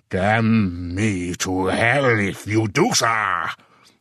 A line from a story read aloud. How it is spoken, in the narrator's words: he roared loudly enough to make heads turn half a block away